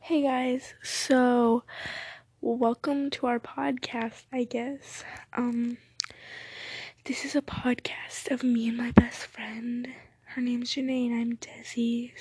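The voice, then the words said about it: Quiet, hushed speaking voice. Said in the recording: “Sorry I'm talking so quiet right now ... we don't want to talk super loud”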